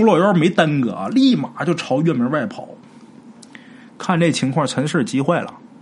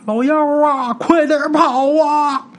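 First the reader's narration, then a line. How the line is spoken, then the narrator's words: Shouting. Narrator (Chinese): 老周就喊呐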